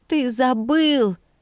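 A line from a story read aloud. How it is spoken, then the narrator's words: Moaned. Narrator (Russian): Простонала я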